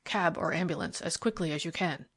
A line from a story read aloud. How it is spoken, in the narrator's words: Thorndyke said in a low voice to the inspector